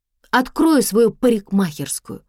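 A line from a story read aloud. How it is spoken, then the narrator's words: Grumbled, back turned. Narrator (Russian): буркнула Тома спиной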